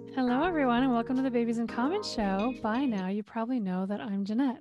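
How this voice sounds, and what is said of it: Voice sounding different, sexy. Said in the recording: “my voice is a little different right now. ... It's a sexy voice. ... I've been talking for 3 hours.”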